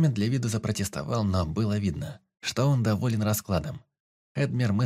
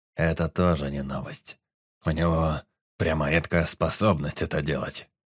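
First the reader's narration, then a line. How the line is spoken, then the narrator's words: Snorting. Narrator (Russian): хмыкнул Эдмир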